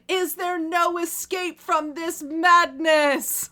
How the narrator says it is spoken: lifts his face to the darkened sky and screamed

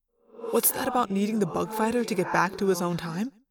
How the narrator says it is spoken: I whispered to Axe

